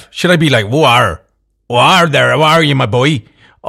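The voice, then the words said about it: Pirate-style Captain Hook accent. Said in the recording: “what kind of accent Captain Hook should have”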